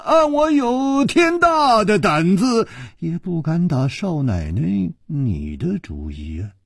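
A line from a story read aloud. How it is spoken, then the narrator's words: Sighing. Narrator (Chinese): 楚留香叹了一口气说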